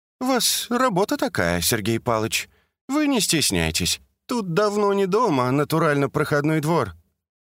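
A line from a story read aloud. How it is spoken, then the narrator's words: Snide remark. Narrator (Russian): Наталья ехидно заметила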